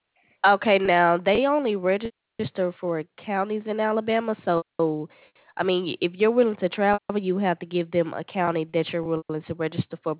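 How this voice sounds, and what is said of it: Southern American accent. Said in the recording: “I love y'all accent, boy.”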